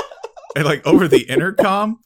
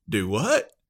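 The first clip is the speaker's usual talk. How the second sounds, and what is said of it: Texas accent, classic pilot voice. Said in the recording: “this like Texas accent, like classic pilot accent”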